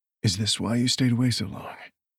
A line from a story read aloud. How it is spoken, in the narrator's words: Nathan asked softly